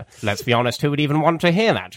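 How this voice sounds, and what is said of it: David Mitchell impression. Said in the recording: “I can give you some David Mitchell instead... I gave you another impression”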